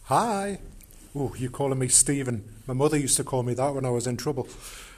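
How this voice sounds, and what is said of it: Geordie English accent. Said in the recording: “I noticed you had an accent, which I absolutely adore ... the accent you're hearing is Geordie”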